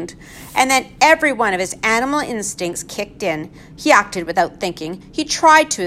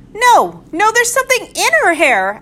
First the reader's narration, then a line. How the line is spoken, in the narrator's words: another person shouted